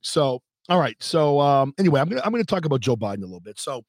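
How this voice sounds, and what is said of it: Slightly off, allergy-affected voice. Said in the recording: “sorry if my voice is a little bit off. I'm suffering from pollen allergies.”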